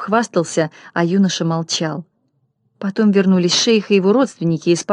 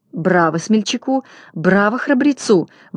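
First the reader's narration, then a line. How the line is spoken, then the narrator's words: Young woman exclaiming. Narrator (Russian): воскликнула девушка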